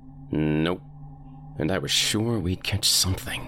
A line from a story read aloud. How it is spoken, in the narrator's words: I grumbled